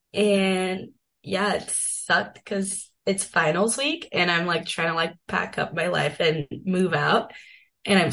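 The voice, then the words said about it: Sick, weird-sounding voice. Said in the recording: “tell by my voice, but I'm sick. ... I feel like my voice is weird”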